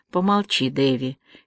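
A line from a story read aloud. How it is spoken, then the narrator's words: Said softly. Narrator (Russian): мягко сказала Аня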